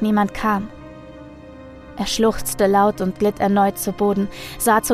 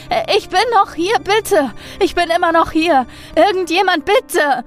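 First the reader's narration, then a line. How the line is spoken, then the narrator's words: Repeated whimpering screams. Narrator (German): schrie er wieder und wieder und wimmerte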